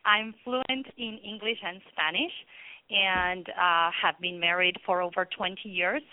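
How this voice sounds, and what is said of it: Argentine Spanish accent. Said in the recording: “I was born in Argentina, actually. That's why my accent.”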